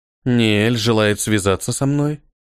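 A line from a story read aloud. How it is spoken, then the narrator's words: Calm question. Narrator (Russian): спокойным голосом спросила Филиника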